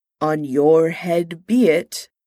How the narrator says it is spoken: Kang intoned

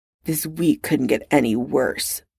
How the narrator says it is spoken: Potter muttered eventually

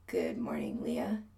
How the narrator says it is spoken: he mumbles

